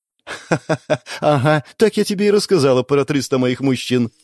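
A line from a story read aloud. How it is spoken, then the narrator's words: Laughing. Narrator (Russian): рассмеялась Марина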